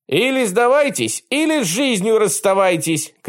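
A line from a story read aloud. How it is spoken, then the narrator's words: Shouted. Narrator (Russian): крикнул он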